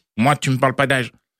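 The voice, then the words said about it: Bad impression of Kylian Mbappé. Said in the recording (French): “Kylian Mobutu Mbappé ... très mauvaise imitation”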